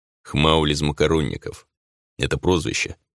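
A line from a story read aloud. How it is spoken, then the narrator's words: Grim middle-aged man. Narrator (Russian): мужчина средних лет мрачно произнес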